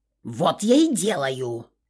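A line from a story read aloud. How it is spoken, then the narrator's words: Barking goddess head. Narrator (Russian): Рявкнула правая голова богини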